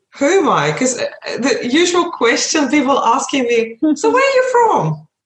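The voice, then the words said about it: Foreign accent, Ukrainian roots. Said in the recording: “Where's your accent from? Because my accent, obviously I've got an accent ... I've got Ukrainian roots”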